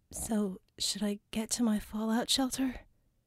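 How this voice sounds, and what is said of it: Small, timid voice. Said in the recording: “in a small voice”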